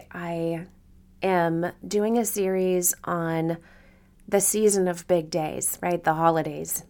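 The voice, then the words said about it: Voice still recovering from illness. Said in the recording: “my voice is starting to come back ... the sickness that has overtaken me for the past week”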